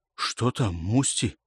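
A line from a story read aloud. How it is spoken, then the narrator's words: Quiet question. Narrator (Russian): спросил Пелка негромко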